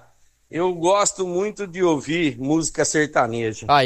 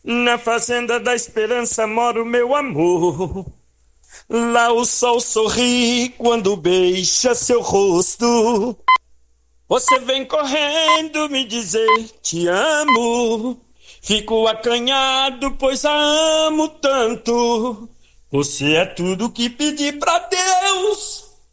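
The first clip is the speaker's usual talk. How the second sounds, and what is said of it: Sings imitating a sertanejo duo. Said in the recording (Portuguese): “eu resolvi fazer uma imitação ... uma dupla aqui, tava cantando. Falei, eu vou cantar um pedacinho, vamos ver se eles conseguem adivinhar quem é que tá cantando. Na minha imitação.”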